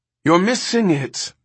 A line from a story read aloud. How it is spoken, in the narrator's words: Ermgard called anxiously to Pris